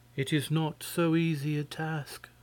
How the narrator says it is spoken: answered, sighing

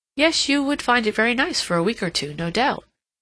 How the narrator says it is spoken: said Lady Otway

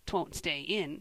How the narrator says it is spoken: said Joel scornfully

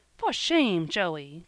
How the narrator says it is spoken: cried Polly, feeling her face grow dreadfully red in the darkness

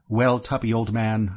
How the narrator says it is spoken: I said

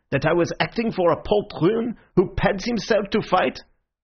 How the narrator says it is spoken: he spluttered

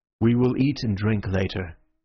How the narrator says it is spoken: he said

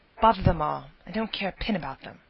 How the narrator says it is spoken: testily

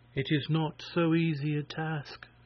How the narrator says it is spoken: she answered, sighing

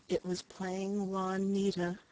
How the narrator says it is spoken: Flora answered wearily

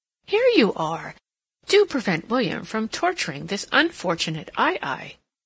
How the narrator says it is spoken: exclaimed

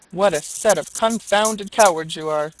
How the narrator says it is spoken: cried the landlord

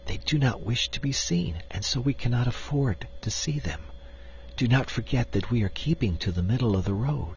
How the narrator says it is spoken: she whispered

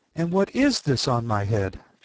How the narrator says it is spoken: She exclaimed in a tone of dismay

